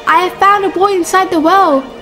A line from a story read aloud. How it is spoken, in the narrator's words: He shouted